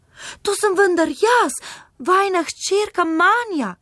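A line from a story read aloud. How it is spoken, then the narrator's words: Calling out. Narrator (Slovenian): Carična je zaklicala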